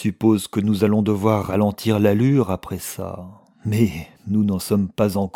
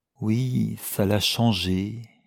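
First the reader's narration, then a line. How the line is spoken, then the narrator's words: Gentle. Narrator (French): dit-il doucement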